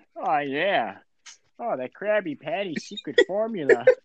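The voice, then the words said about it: Cartoon character voice impression. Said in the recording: “your plankton impression ... That was really bad.”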